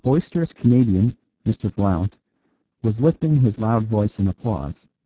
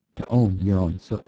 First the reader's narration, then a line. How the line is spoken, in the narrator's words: put in the priest in a low voice